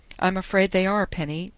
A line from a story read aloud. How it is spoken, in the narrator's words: Dundee told her miserably